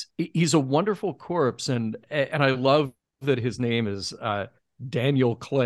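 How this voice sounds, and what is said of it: Usual voice. Nothing is said of it.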